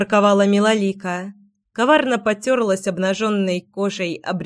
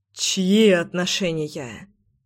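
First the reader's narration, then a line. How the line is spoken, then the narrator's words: Noisy exhale. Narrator (Russian): шумно выдохнул Заверин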